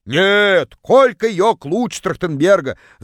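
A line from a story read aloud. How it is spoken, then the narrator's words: Yelled from far away. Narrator (Russian): Заорала одна из них из самого дальнего угла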